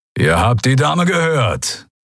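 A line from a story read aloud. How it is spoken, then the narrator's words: Growled. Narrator (German): knurrte Keru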